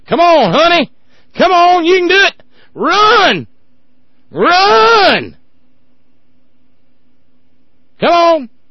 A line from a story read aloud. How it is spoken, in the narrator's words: yelling